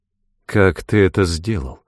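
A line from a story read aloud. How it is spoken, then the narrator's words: Muffled question. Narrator (Russian): глухо спросила Мета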